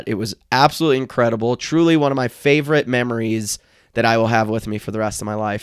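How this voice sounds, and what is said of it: Strained voice from sore throat. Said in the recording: “my voice sounds like this. My throat actually hurts. I'm sure my vocal cords are damaged”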